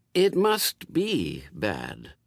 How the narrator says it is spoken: reasoned Aziraphale, in the slightly concerned tones of one who can't see it either and is worrying about it

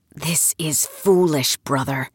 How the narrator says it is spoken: he whispered in Turkish

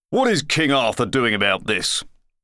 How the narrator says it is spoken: demanded the editorial crier pompously

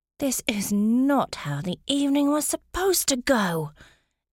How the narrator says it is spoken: Emma said through clenched teeth

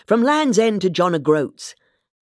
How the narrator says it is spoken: said impatiently

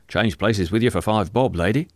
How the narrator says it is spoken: said someone else

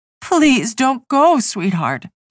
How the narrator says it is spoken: she begged

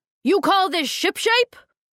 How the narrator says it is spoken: He bellowed

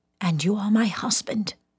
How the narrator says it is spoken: said in something barely above a whisper

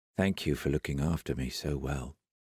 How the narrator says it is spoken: said Aaron quietly

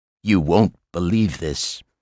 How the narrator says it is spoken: he said

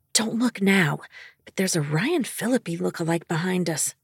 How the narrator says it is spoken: Eden whispered

